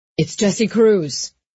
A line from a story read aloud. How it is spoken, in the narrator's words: he shouted